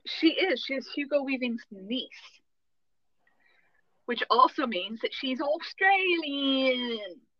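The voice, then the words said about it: Put-on Australian accent. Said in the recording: “What was that? Did you have a stroke? ... That was my great Australian accent.”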